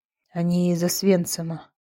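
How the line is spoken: Doctor repeating. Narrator (Russian): повторил врач

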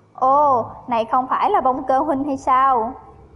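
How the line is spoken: Very excited greeting. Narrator (Vietnamese): Ngụy Vô Tiện vô cùng phấn khởi bắt chuyện

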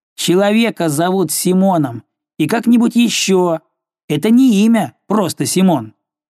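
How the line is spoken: Boy shouting. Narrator (Russian): Парнишка крикнул ему

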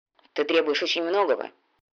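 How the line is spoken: Gruff grumble. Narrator (Russian): буркнул всадник

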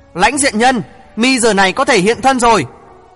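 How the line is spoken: Cold, frowning shout. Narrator (Vietnamese): Ngô Tiểu Mi chau mày liễu, lạnh lùng hét một tiếng nói

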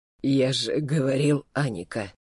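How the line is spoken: Hoarse voice. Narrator (Russian): хрипло произнес он

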